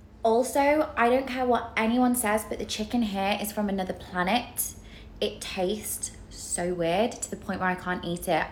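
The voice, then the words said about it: Neutral British accent. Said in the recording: “I have a very neutral British accent. You know, it's not super northern, not super southern. It's not really anything”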